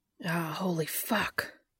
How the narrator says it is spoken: gasped Dean

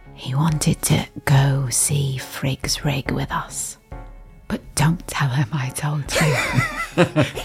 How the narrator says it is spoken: whisper in his ear

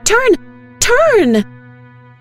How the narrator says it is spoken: she screams

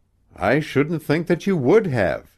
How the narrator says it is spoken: he exclaimed

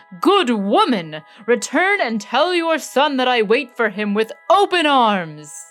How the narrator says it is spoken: the Sultan exclaimed to Aladdin's mother

